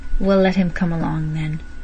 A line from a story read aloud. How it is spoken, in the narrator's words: saying huskily